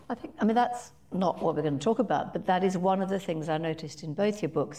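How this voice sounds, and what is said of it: Foreign accent, partly British. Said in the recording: “as you can probably tell by my accent, wasn't born here ... in the UK, where I grew up some of my life”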